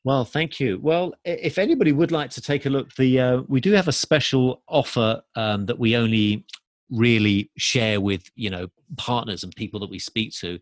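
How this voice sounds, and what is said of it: English accent. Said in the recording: “I'm from England, as you can tell from my accent”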